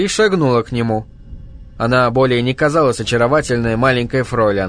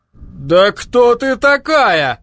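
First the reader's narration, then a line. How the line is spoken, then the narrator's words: Horrified exclamation. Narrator (Russian): в ужасе воскликнул шпагоглотатель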